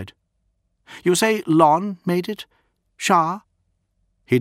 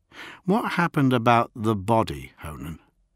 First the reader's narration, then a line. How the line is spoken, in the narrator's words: He asked quietly